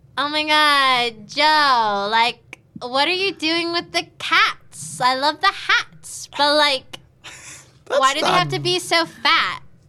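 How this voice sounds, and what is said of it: Nasal Valley Girl accent. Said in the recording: “Hear your Valley Girl go. ... I thought it was nasally enough.”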